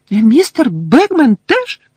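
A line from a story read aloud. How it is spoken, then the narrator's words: Squeaking. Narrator (Ukrainian): запищала Вінкі, знову набрала розлюченого вигляду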